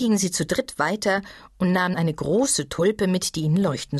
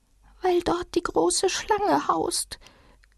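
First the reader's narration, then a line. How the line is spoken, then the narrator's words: Very quiet small creature. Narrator (German): sagte das kleine Tier mit sehr leiser Stimme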